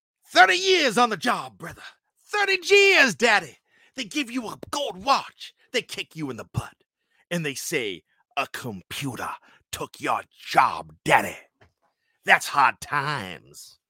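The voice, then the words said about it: Imitates another person's voice. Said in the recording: “I did my Dusty Rhodes impression ... I'll do my Dusty Rhodes.”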